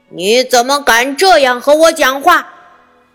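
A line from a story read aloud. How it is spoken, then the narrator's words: Shout. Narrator (Chinese): 他喊道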